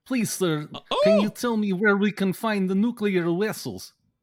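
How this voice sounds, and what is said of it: Russian-accented Star Trek character voice. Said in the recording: “You could also do a Chekhov from Star Trek ... Russian accent”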